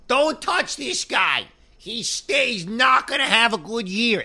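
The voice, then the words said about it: Imitates another person's voice. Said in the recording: “I will do my best imitation of you”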